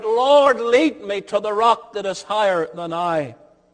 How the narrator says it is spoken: the psalmist felt himself overwhelmed and sinking like a drowning man in the sea that he cried out

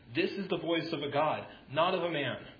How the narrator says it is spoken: the people started shouting

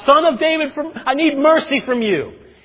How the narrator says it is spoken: From the top of his lungs, from the bottom of his heart, he screams out

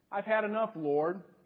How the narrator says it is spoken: he said

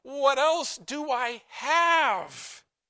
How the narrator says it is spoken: So pathetically, Micah pleads

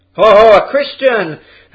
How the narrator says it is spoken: They shouted in anger

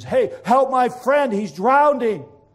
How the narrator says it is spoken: Taylor shouts at them and says

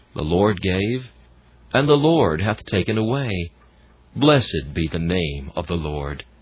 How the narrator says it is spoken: And though tears would come, she gently said

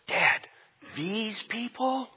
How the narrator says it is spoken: Sean asked with a whisper

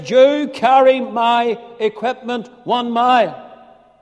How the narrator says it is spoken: The soldier repeats his command at the top of his voice and he says

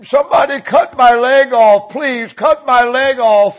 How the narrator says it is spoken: the man screamed

